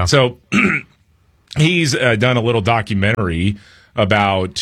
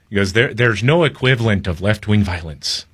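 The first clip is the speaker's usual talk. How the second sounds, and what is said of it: Poor imitated Irish accent. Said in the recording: “he's a little Irish guy ... That's a terrible accent.”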